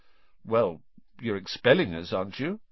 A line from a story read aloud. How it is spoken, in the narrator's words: said Ron